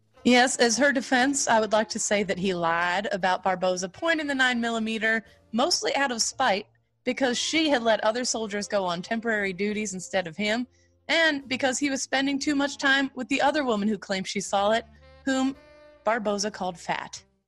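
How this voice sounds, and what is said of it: Put-on Southern lawyer accent. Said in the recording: “Why the Southern accent there ... I'm a fancy Southern lawyer ... I'm being a fancy Southern lawyer.”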